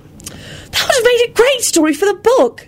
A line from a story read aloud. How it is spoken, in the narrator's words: Ginny told her brother angrily